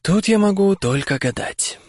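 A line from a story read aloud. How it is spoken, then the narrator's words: Sighing. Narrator (Russian): вздохнул Дамблдор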